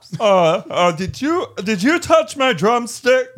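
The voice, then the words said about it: Poor John C. Reilly impression. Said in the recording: “Isn't John C. Reilly kind of talk like that? ... You sound like the Cookie Monster. ... Kermit the Frog. ... you're usually really good with impressions. Not this one. ... You try to do a John C. Reilly accent. ... There's a difference between attempting and completely destroying it.”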